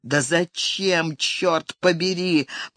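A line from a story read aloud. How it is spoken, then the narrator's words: Despairing groan. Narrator (Russian): простонал он в отчаянии от ожидающей его перспективы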